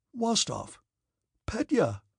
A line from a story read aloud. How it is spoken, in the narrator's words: exclaimed Denisov